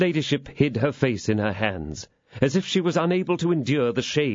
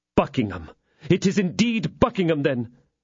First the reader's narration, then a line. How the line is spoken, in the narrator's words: exclaimed the exasperated Felton